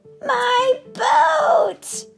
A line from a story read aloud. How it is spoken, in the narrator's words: cried happily